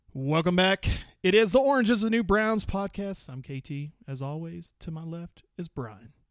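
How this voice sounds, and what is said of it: Hoarse, nearly lost voice. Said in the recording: “Your voice is out again.”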